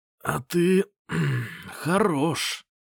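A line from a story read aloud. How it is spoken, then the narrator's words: Hoarse rasp. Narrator (Russian): прохрипел Лысый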